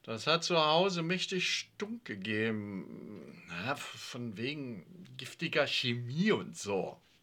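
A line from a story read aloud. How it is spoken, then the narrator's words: Stutter. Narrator (German): stotterte der Angesprochene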